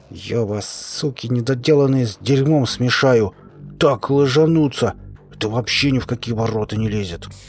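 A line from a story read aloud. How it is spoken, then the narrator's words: Through gritted teeth. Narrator (Russian): Боров процедил сквозь зубы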